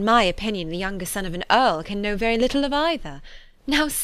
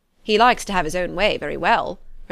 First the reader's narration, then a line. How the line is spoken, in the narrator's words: replied Colonel Fitzwilliam